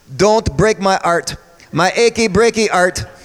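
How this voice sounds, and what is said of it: Put-on French Canadian accent. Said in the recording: “with a French Canadian accent.”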